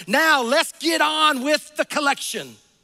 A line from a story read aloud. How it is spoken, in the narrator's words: A man sitting on the second row shouted